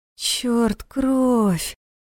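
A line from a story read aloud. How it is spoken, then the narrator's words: Moan. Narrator (Russian): простонала Наташа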